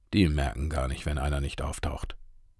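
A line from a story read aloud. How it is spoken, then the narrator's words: Dismissive mutter. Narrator (German): murmelte der Rentner geringschätzig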